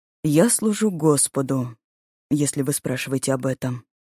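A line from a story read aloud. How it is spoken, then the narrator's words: Gentle reply. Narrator (Russian): Виктор мягко ответил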